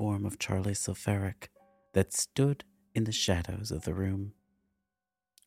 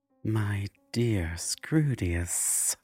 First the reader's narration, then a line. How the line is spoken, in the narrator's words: Cordiva purred